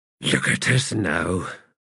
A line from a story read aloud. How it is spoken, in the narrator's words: Quick Ben muttered